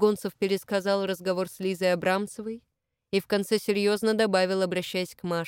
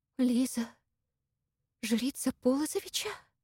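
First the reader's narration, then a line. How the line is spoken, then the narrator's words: Terrified whisper. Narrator (Russian): в ужасе прошептала Маша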